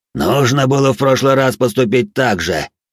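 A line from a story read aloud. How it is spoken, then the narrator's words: Pleased roar. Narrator (Russian): довольно проревел он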